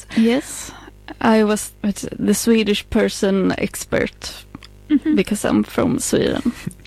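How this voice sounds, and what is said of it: Swedish-accented English. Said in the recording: “my Swenglish accent”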